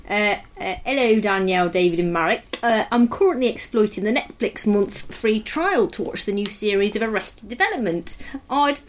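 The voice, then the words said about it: Put-on East Midlands English accent. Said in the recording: “I'm going to do an East Midlands accent”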